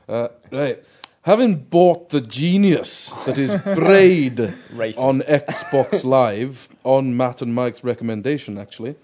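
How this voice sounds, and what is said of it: Put-on Scottish accent. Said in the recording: “I have to do the accent for this one because he's called Flaming Scotsman”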